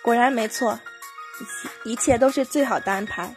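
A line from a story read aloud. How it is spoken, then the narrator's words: King laughing heartily. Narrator (Chinese): 国王忍不住哈哈大笑，说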